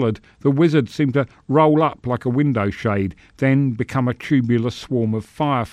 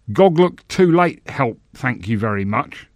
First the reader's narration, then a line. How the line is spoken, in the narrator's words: the senator snarled